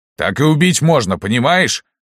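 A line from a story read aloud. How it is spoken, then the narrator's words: Shouted. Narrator (Russian): выкрикнул Лаврентий Палыч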